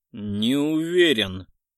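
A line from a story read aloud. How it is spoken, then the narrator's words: Growled. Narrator (Russian): рыкнул Гаур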